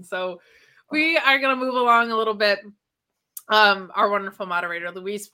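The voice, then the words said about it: Strained, sore voice. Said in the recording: “my voice is already hurting”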